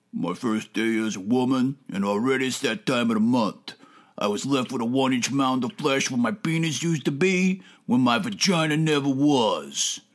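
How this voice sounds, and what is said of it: Put-on Brooklyn accent. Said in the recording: “Steele affects an accent straight out of Brooklyn”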